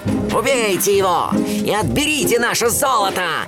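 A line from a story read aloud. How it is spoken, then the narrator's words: Leader's shout. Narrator (Russian): закричал разбойникам главарь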